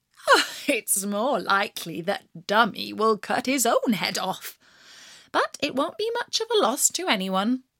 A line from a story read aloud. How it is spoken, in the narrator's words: The mother laughed at him and said